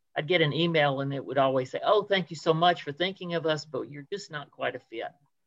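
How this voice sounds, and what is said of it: Southern US accent. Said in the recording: “I have a Southern accent. I'm from Atlanta... as we say in the Deep South”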